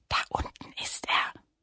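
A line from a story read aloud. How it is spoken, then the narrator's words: Whisper. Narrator (German): flüsterte Lilli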